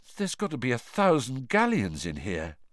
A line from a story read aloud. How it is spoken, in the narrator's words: said George weakly